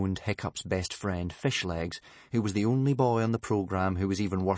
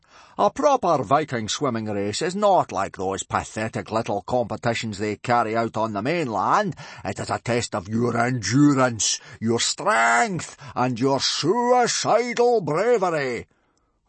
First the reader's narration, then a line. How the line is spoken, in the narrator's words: boomed Gobber